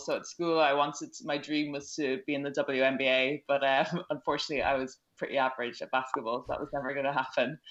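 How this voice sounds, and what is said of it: Irish accent. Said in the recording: “I'm Irish, as you can probably tell from my accent.”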